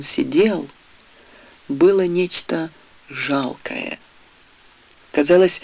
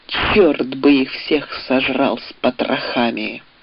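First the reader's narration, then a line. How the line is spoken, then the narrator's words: Through gritted teeth. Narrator (Russian): процедила Анна сквозь зубы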